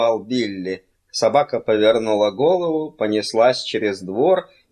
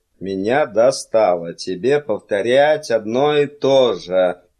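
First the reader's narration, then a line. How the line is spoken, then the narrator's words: Grumble. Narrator (Russian): проворчал Миган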